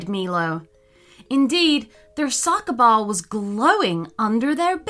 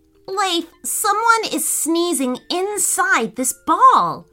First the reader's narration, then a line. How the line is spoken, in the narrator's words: cried Dean